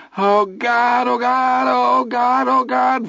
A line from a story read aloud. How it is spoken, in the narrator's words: Vern cried